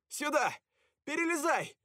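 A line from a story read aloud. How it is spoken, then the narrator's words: Shout. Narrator (Russian): крикнул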